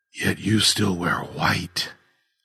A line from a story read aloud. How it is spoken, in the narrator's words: Augustine pointed out, his voice faint and hoarse